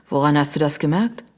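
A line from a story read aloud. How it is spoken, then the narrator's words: Sighing. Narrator (German): Sie seufzte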